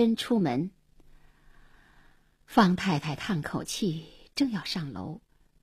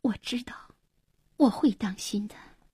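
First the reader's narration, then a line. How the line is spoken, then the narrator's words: Soft, tearful. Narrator (Chinese): 黄英眼里闪着泪光，轻声说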